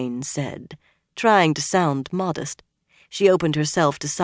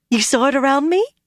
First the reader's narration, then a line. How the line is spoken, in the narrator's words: she said excitedly